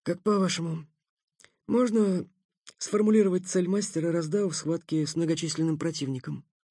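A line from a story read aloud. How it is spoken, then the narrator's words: Caught off guard, mumbling. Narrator (Russian): застигнутый вопросом врасплох, промямлил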